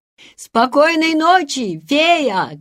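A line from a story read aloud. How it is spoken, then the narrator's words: Shouting after her. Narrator (Russian): кричали ей вслед Ханс и Гретель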